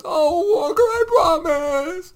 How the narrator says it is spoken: Emily sobbed

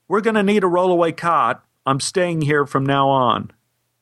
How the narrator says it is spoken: She called out to a nurse and said

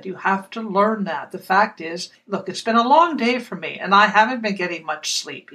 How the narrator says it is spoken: he said

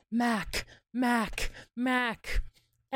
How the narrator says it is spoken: murmuring

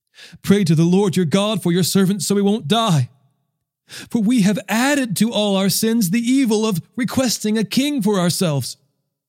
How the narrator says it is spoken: They pleaded with Samuel

